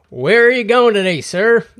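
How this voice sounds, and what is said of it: Put-on American accent. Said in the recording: “She didn't even have an American accent... Let's say she had an American accent.”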